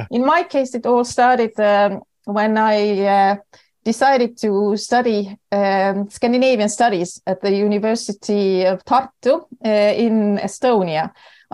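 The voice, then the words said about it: Estonian accent in English. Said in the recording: “they might recognize my accent as quite typical for Estonians and Finns”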